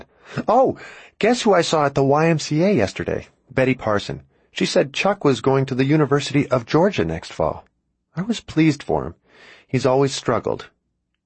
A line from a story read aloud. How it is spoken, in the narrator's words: My mom laughed and then said